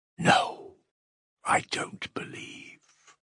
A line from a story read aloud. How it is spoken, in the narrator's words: whispered Smerdyakov